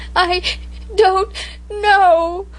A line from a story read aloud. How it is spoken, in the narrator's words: I sobbed